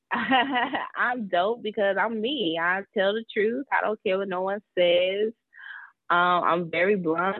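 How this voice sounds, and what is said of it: Southern US (South Carolina) accent. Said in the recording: “I am from South Carolina. Everyone says I have an accent”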